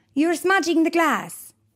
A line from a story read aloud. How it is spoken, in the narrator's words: Signora Pianostrada would shout